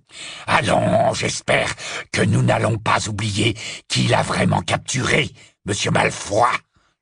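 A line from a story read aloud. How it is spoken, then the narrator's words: Menacing interruption. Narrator (French): l'interrompit Greyback d'un ton menaçant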